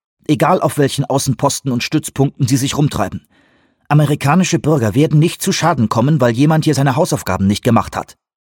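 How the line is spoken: Sharp male voice. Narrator (German): sagte er scharf

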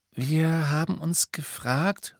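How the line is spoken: Hesitant. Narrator (German): sagte Hermine zögernd

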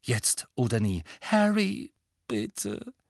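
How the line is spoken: Weak pleading. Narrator (German): flehte Hermine matt

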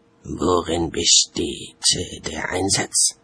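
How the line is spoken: Whisper. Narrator (German): flüsterte

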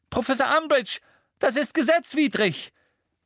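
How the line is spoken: Shouting. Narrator (German): schrie Hermine

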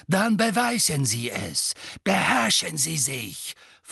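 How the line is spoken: Hissed. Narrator (German): fauchte Snape

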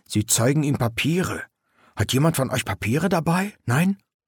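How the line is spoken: Whispered. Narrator (German): flüsterte Knaller

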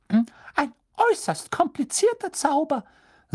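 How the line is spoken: Squeaky voice. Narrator (German): sagte er quiekend

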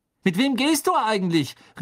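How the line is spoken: Calling after someone. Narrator (German): rief er Hermine nach

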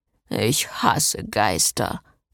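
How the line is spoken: Muttering. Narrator (German): murmelte Jason

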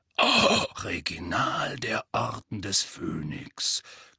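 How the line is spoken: Growled. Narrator (German): knurrte Moody

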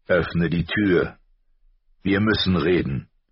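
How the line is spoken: Father calling. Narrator (German): rief die Stimme ihres Vaters

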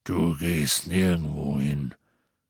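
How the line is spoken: Growl. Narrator (German): knurrte Hagrid

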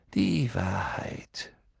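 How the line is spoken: Sighing. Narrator (German): Dumbledore seufzte

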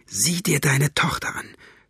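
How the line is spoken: Whisper. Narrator (German): flüsterte

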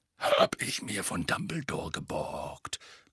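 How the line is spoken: Growled. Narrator (German): knurrte Moody

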